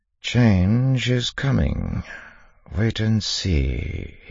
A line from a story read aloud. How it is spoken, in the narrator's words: said quietly